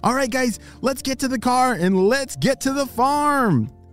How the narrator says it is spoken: shouted

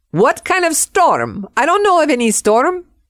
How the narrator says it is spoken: in her Spanish accent, she said

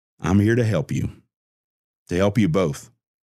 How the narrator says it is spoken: Creed calmly explained

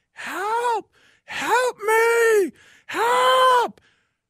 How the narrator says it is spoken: a woman screaming

